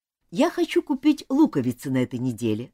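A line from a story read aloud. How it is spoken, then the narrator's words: Plain. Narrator (Russian): сказал Джон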